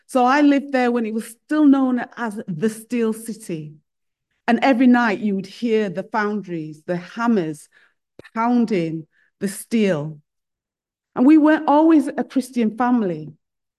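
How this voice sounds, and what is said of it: Northern English Sheffield accent. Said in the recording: “I grew up in Sheffield, up north. So you probably picked that up from my accent”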